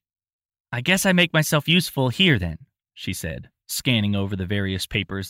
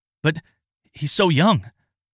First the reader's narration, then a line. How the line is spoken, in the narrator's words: Tristan stammered, full sentences not yet coming to him